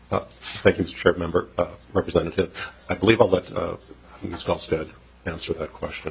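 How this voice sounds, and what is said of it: Voice affected by a cold. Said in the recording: “I've got a cold”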